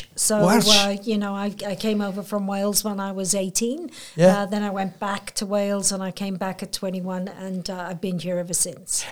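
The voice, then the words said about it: Welsh accent. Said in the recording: “there's not a Port Macquarie accent, but a different accent ... So my accent is Welsh.”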